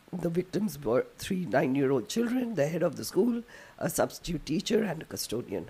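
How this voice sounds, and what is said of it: Strained, failing voice. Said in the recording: “My voice is just giving up on me.”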